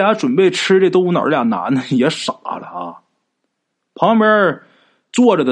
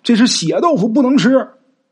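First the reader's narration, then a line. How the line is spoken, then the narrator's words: Urgent shout. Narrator (Chinese): 吴大师……就喊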